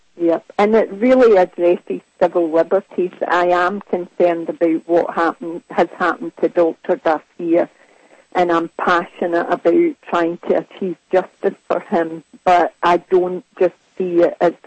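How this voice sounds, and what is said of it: Scottish accent. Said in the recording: “what a lovely Scottish accent”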